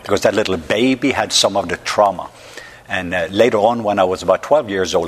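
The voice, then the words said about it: Norwegian accent. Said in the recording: “they can hear I don't have a southern accent ... I'm from the country of Norway”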